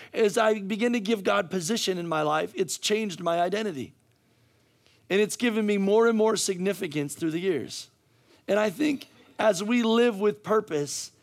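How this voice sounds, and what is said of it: Hoarse, strained voice. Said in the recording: “I'm losing my voice right now ... I'm screaming, I'm yelling.”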